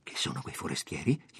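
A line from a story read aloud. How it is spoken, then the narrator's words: Low-voiced question. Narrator (Italian): gli domandò poi a voce bassa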